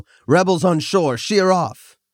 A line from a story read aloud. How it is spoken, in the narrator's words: He started to yell